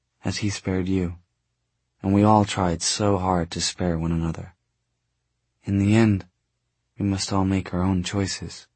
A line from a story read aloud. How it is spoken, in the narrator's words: Tessa said quietly